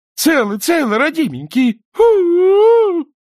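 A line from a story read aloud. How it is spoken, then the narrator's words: Sobbing woman. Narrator (Russian): рыдать она не перестала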